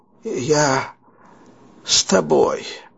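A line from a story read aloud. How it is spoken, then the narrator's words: Breathed out. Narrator (Russian): выдохнул Буштонц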